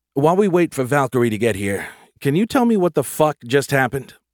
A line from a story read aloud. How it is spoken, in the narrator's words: He sighed